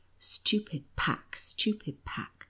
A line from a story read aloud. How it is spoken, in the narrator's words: The counsellor's face turned very dark and grave, and he muttered